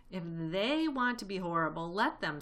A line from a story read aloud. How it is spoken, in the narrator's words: said Mr